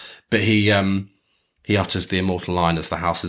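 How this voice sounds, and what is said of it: Usual voice. Nothing is said of it.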